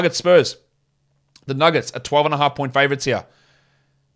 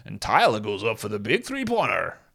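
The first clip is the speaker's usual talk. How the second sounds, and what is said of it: Mock local sports broadcaster voice. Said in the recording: “sounds like I'm a local broadcaster ... Terrible accent.”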